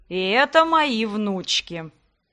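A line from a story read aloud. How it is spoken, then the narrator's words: Disapproving creaky voice. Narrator (Russian): неодобрительно проскрипел князь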